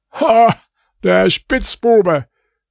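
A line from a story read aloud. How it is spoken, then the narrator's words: Goldsmith calling. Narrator (German): rief der Goldschmied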